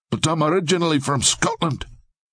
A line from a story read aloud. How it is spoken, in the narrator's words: Lincoln blurted out